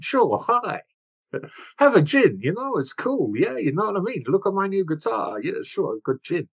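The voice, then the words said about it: Poor attempt at Dutch accent. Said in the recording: “I can't do a Dutch accent”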